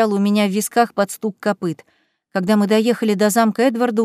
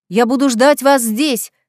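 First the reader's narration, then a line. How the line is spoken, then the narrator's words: Exhausted woman shouting after. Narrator (Russian): крикнула нам вслед измученная леди Далтон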